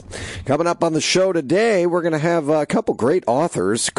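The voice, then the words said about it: Raspy, partly lost voice. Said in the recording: “I lost my voice over the weekend, um, cheering ... has not quite returned yet ... if I was sitting here not raspy”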